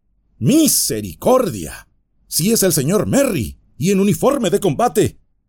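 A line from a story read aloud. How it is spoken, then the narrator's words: Old man exclaiming. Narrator (Spanish): exclamó el viejo Hob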